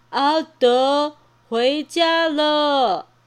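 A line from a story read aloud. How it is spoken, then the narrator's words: Thunderous voice. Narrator (Chinese): 那个声音像打雷一样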